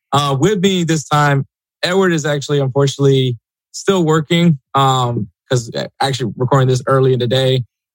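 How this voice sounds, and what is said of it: Slightly raspy voice. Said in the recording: “my voice is a little raspy, and that's because of just this crazy-ass weekend of soccer”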